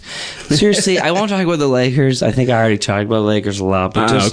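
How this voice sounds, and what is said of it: Low, strained voice from yelling. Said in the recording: “did you wear out your throat? ... Yeah, no, I did. I was afraid that this wouldn't sound very good, so I'm talking in a low voice.”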